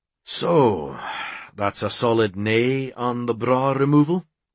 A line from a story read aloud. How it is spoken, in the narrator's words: He sighed as if he'd just missed a goal